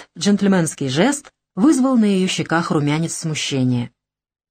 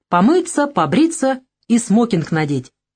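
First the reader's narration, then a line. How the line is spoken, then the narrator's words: Cheerful addition. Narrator (Russian): весело добавил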